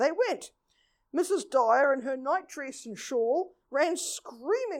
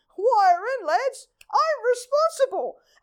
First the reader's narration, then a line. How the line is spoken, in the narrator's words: Porter shouted